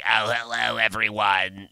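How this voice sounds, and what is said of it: Raspy old smoker lady voice. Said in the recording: “the like old smoker lady that's like”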